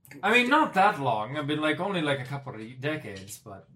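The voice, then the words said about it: Shaky fake Scottish or Irish accent. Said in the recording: “I cannot do that accent, apparently, today... is he Scottish or Irish?”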